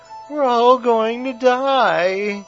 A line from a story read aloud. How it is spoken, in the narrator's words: whimpered Bailey